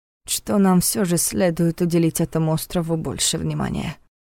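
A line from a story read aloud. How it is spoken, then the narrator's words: Quiet statement. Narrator (Russian): тихо констатировал Войтых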